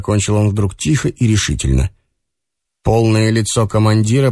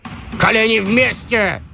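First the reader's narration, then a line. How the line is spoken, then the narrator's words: Sudden bark. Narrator (Russian): гаркнул вдруг Шульгович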